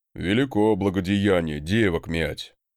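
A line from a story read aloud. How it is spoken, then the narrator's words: Grumbling again. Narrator (Russian): опять проворчал он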